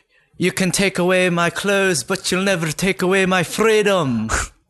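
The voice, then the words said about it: Put-on Scottish accent. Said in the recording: “Scottish accents, and Scottish. You can just sound kind of pissed off a whole bunch... That's pretty good, actually... Doing the Scottish accent's one of my favorite accents to do.”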